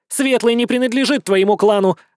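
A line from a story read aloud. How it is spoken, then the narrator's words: Barking nasty woman. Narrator (Russian): рявкнула противная тетка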